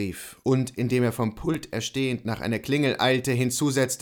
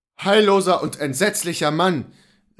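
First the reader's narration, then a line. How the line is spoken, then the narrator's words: Confused yet relieved exclamation. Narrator (German): rief Luther durch diese Worte verwirrt zugleich und beruhigt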